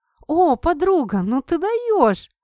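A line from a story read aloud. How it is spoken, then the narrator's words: Delighted exclamation. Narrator (Russian): Восторженно воскликнула Кэт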